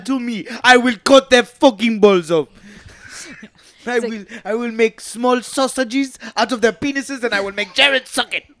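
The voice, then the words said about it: Deep put-on African accent. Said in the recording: “this deep African accent comes out. I couldn't even understand him”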